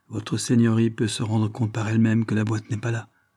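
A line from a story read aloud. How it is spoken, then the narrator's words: Plain. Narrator (French): dit M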